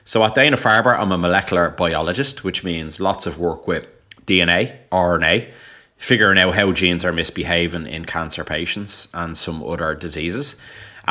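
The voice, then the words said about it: Irish Dublin accent. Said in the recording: “in case the accent wasn't a dead giveaway, yes, I am from Dublin, Ireland”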